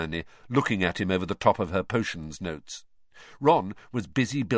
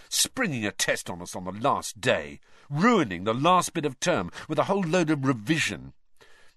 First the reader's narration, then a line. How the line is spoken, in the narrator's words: Ron said bitterly